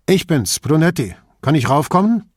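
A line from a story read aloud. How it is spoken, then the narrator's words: Calling out. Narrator (German): rief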